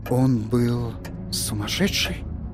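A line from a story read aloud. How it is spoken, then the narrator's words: Whisper. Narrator (Russian): прошептал Торн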